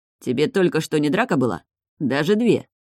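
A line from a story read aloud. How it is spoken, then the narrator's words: Snorting husband. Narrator (Russian): фыркнул муж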